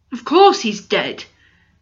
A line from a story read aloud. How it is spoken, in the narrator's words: said Finn impatiently